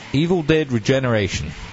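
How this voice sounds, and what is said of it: Put-on Australian croc hunter accent. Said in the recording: “What's your favorite video game in the accent? ... why are you a croc hunter? ... Oh, crikey!”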